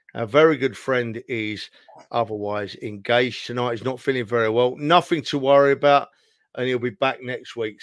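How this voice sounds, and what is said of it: Speaks with a noticeable accent. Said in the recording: “As you can probably tell by the accent”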